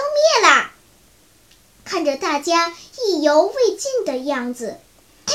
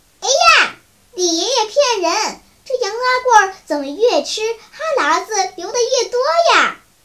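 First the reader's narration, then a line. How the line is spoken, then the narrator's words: Laughing. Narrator (Chinese): 妞妞笑道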